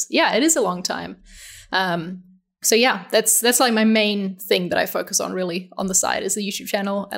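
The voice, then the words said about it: New Zealand accent. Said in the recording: “originally from New Zealand ... That's what the accent is.”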